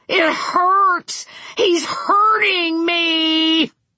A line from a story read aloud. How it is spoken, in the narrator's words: The gas mask man shrieked